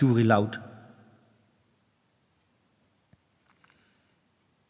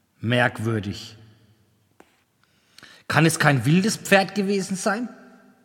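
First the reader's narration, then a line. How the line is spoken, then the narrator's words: Plain question. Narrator (German): fragte Piak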